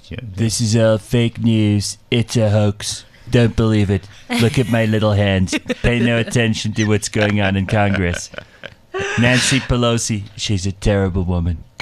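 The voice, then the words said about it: Donald Trump impression. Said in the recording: “do your Trump accent ... you have to say it with a Trump accent”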